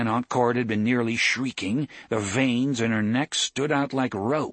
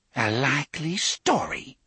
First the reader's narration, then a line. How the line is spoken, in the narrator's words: Cordelia whispered at last